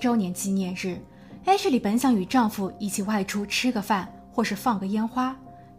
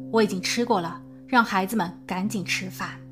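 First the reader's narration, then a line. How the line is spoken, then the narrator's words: Cold. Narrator (Chinese): 他还冷冷地说道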